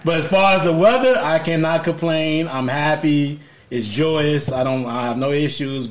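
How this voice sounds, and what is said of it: Scratchy, congested voice. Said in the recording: “my allergies are on 10. You can hear it in my voice. It's a little scratchy. It sounds like I have a lot of mucus going on.”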